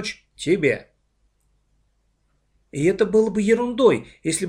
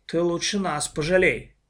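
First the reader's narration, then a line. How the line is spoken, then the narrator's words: Grumbling. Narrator (Russian): проворчала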